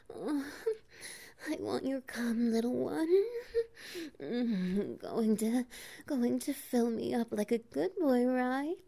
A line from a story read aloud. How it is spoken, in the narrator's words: she pants